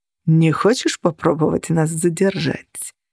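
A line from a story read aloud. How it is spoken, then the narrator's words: Silky question. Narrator (Russian): шелковым голосом спросил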